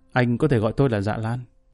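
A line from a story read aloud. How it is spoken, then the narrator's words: Smiling reply in English. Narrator (Vietnamese): khẽ mỉm cười, trả lời bằng tiếng Anh cực chuẩn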